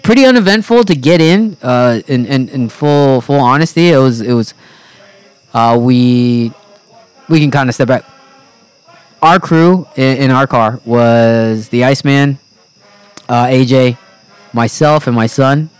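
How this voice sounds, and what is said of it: Slightly hoarse voice. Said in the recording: “my voice is a little hoarse. I did scream a little bit, and I hadn't screamed in a while.”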